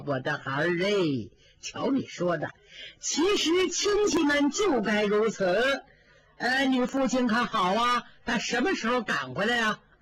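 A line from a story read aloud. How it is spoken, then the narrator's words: Old woman, smiling. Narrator (Chinese): 老太太 笑着说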